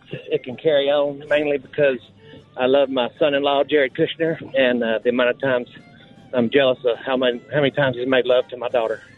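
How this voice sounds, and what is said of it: Bad Donald Trump impression, drifting. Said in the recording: “That was more Jerry Jones than it was Donald Trump, yeah. I think, if we're going for bad imitations there. ... He started as the president and then got the Jera.”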